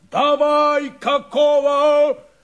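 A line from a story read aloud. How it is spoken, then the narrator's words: Coarse bellow. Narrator (Russian): заорал Шурыгин трактористом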